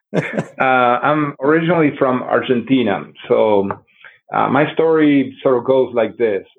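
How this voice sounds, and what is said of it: South Texas accent. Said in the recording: “You may detect this Texas accent from me ... South Texas.”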